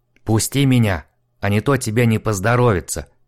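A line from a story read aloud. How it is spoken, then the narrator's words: Hiss. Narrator (Russian): прошипел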